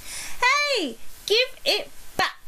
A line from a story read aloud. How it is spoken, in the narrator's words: shouted Emily